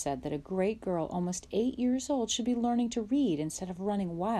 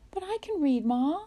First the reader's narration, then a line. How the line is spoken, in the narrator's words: Laura begged